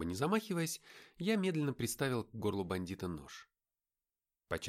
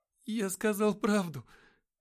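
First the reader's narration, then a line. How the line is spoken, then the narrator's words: Trembling voice. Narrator (Russian): дрожащим голосом проговорил пленник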